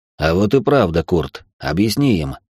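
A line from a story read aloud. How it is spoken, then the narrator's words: Amused grunt. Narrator (Russian): хмыкнул Райнхард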